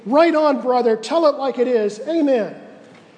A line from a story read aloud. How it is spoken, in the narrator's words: they jumped to their feet and screamed